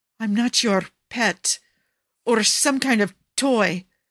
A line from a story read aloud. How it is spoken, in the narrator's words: Cesare snaps